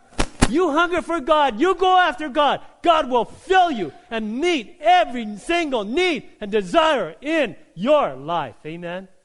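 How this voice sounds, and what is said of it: Yelling, loud preaching voice. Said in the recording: “sorry for yelling”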